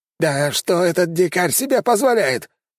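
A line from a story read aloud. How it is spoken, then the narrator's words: Shouted outburst. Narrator (Russian): выкрикнул генерал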